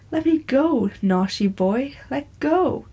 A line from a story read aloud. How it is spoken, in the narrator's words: did not cease to exclaim